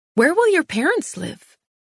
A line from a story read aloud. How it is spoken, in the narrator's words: I blurted out the thought as it occurred to me